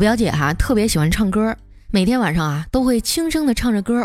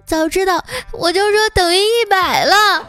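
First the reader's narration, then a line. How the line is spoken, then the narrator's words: Crying while speaking. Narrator (Chinese): 他一边哭啊，一边说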